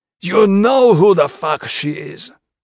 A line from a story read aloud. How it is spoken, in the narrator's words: the blinder spat